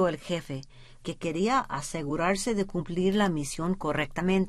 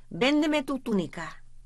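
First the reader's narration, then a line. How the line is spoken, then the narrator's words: Shouting. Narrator (Spanish): gritó el jefe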